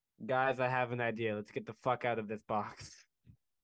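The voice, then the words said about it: Performed character voice. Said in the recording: “that was my character voice. There just wasn't any R's in that sentence.”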